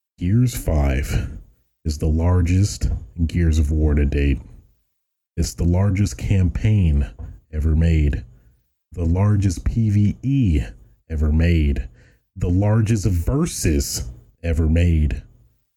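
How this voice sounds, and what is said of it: Dramatic announcer voice. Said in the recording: “my announcer voice”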